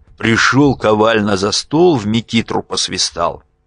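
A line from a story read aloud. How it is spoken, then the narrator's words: Weary, grim smirk. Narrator (Russian): Бледный, усталый Евсей мрачно усмехаясь, говорил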